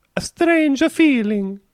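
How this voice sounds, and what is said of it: Put-on Italian accent. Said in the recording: “It's less ominous and portentous when you do that accent for strange feeling. ... I'm an Italian lady. ... I thought strange feeling actually sounded quite spooky, and then you did it that accent, and then it just becomes a joke.”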